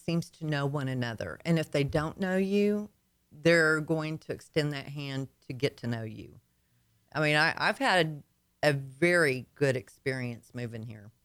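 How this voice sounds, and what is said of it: Slight Arkansas Southern twang. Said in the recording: “You got a little twang there. ... I guess that's Arkansas.”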